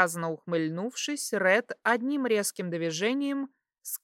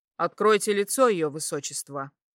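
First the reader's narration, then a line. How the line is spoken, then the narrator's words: Sharp command. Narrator (Russian): Константин резко приказал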